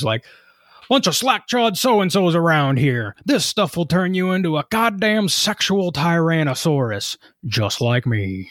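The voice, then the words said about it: Imitates another person's voice. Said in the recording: “my Jesse Ventura impression ... that was very well done”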